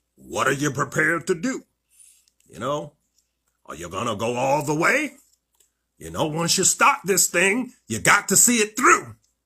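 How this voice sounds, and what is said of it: Poor imitation of another person's voice. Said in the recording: “not a very good Sean Connery voice impression.”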